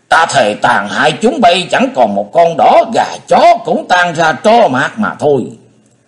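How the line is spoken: Roaring. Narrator (Vietnamese): Hải Ma giáo chủ gầm lên

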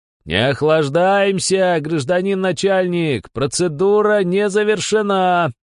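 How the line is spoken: Roared. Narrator (Russian): проревел Бесов

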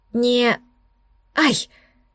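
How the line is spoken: Pained squeak from burn. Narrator (Russian): Пискнула я от жгучего соприкосновения голубого огня и своей кожи

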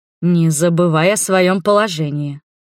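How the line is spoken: Stern and loud. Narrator (Russian): строго сказал Арман громко

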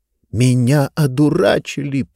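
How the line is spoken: Furious hiss. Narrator (Russian): прошипела она

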